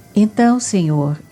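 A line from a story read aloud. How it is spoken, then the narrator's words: Respectful exclamation. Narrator (Portuguese): exclamou Zebedeu respeitoso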